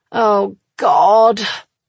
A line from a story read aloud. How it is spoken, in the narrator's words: she groans, the sound pure pleasure